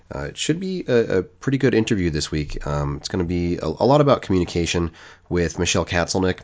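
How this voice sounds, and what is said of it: Congested, stuffed-up voice. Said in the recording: “I've got a little bit of a cold this week ... I'm a little bit snotty, so I apologize if I sound a bit stuffed up.”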